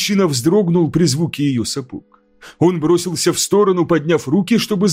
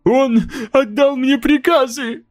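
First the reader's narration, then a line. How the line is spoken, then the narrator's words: Sobbing. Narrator (Russian): всхлипывал человек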